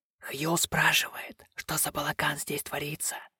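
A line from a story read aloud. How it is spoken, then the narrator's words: Hiss. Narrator (Russian): прошипел он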